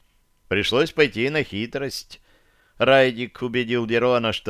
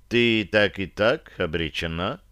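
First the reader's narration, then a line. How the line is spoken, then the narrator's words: Cold. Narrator (Russian): холодно обронила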